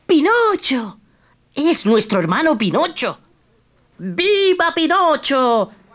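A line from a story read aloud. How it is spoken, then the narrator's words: Shouted together. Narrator (Spanish): gritaron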